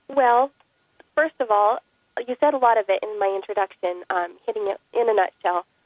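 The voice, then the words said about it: Nasal, congested voice. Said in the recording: “I have been sick and actually lost my voice all last week. Yesterday it came back, but today I'm sound very nasally”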